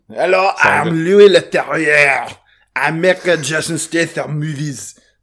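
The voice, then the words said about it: French-accented impression of Louis Leterrier. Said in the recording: “He's got a French accent.”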